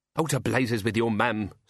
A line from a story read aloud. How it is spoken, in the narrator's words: snapped Tea Time